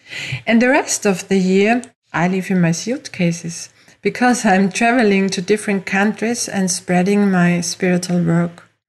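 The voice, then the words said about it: Austrian-accented English. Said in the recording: “As you hear from my accent, I didn't grow up in the USA, but in Europe, in Austria.”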